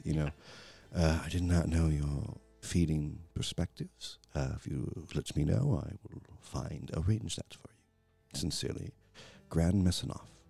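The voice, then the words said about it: Character voice with an accent. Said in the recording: “In his accent”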